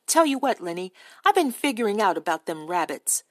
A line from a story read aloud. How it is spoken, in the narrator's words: Crook said irritably